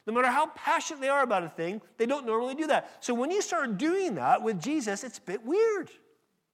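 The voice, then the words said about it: Slight American accent. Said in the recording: “my slight accent, ever so slight accent ... "Where'd you come from?" "California."”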